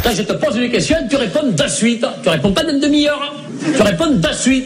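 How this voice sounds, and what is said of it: Put-on southern French accent. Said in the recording (French): “quand Chevalier et Las Palas prennent l'accent du Sud”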